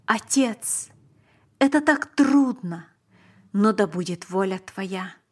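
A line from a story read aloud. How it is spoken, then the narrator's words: Exclaiming. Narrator (Russian): Он воскликнул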